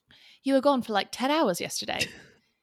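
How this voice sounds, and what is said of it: Put-on English accent. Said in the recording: “You have a good English accent ... That was good. No, that's way better.”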